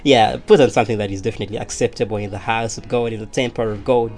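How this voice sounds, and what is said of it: Shifting American and Ugandan accent. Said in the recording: “don't worry about my accent, it's always just like that. It keeps switching. I kept going to America and coming back to Uganda.”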